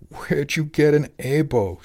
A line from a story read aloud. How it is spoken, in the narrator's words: she cried